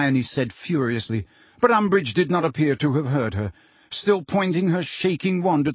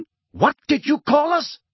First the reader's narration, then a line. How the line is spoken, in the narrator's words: shouted a wild-looking black centaur